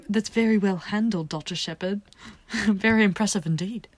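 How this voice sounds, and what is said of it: Put-on British accent. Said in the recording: “how do you do a British accent?”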